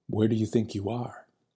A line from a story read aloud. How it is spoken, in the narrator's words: the attendant said softly